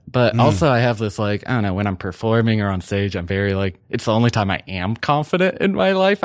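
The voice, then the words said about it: Unusual, hard-to-place accent. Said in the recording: “I have a weird voice... I have a weird accent that no one can really place.”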